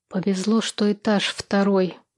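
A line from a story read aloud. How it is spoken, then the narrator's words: Indistinct mutter. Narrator (Russian): невнятно пробормотала я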